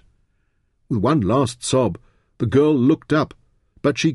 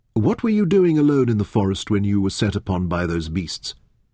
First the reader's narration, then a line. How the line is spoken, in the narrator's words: he asked her in a kindly tone